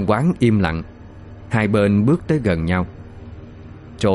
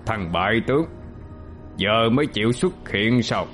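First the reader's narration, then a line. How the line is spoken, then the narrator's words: Scornful sneer. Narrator (Vietnamese): Vị vua cổ xưa cười khẩy mà nói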